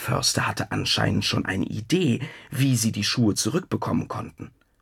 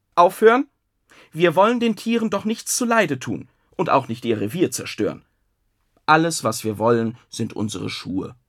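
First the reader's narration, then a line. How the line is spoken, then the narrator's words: Calling out sternly. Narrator (German): streng rief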